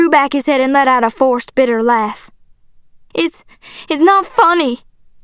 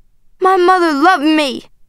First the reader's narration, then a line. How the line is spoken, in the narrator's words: I cried